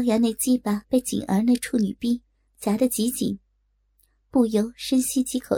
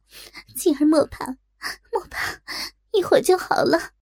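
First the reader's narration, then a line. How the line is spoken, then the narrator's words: Crying. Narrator (Chinese): 若真也哭道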